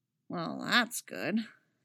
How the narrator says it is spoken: Kanan mutters

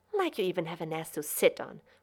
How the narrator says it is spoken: Rodney muttered

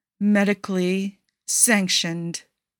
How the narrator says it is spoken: Aisha repeats slowly

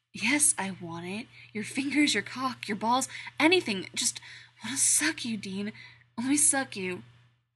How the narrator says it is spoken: he breathes

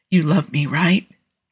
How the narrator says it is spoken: Jensen whispered into the darkness, the words fragile

